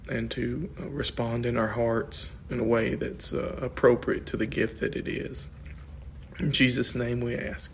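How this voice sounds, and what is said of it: Strained, failing voice. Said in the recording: “losing my voice.”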